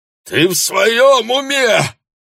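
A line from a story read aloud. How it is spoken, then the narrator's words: Howl. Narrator (Russian): взвыл он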